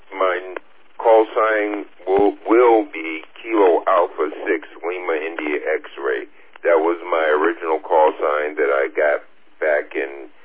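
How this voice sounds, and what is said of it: New York accent. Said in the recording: “you have the distinct accent, of course, but I don't reckon you're the only New Yorker out here”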